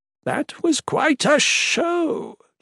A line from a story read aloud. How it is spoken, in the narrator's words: Joran cackled, voice emanating from somewhere in the motionless horde of Mikik's creatures